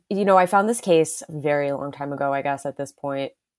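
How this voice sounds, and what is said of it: Weak, worn-out voice. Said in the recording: “Recovering from COVID, actually. So my voice is kind of gone.”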